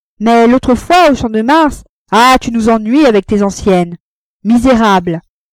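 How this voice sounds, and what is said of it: Hateful, hostile tone. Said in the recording (French): “d'un accent plus haineux”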